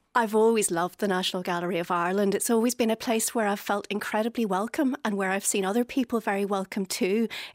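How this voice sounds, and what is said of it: Slight Belfast accent. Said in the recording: “we can get a hint of the Belfast accent. A wee bit of a hint... It's still there.”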